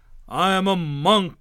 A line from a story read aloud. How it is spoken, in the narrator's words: thundered